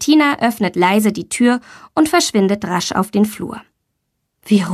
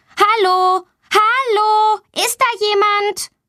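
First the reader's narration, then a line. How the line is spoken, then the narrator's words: Loud call. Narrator (German): Sie ruft laut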